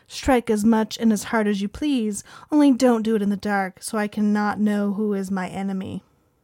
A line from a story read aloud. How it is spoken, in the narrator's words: Victoria coolly responded